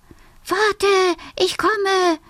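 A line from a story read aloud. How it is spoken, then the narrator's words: Small fox calling. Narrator (German): ruft der kleine Fuchs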